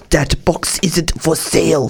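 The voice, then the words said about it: Stern voice, poor Romanian accent. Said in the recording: “in a very stern voice said ... That's my best Romanian accent I've got. ... It's terrible.”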